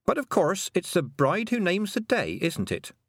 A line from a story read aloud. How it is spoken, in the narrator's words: said Tiffany cheerfully